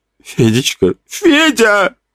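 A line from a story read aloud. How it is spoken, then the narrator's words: Elderly woman sobbing. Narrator (Russian): рыдала пожилая женщина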